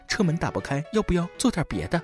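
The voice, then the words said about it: Soft, gentle seductive voice. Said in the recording (Chinese): “用温柔的声音说”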